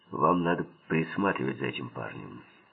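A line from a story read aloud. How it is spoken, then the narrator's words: Calm mutter. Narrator (Russian): спокойно буркнул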